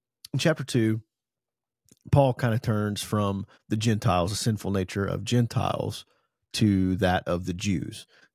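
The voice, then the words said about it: Strained voice from allergies. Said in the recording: “You're going to have to forgive my voice a little bit. I got some allergy stuff going on”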